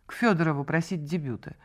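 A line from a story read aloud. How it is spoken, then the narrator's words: Icy tone. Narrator (Russian): ответила она ледяным тоном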